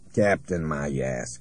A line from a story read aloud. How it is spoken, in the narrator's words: Krunek snarled